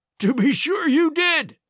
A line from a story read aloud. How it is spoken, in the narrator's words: cried